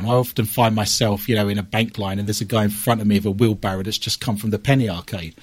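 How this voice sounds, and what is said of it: British accent. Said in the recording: “when he heard my accent ... being foreign ... which is in Somerset in Britain”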